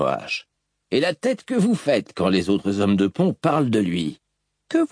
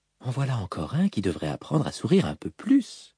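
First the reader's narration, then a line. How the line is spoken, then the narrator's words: Whispering. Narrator (French): chuchota Syl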